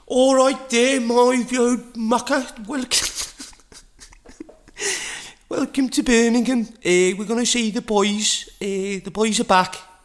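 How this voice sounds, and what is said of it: Exaggerated put-on Scouse accent. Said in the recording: “I'm going a bit scouse now ... horrid accents”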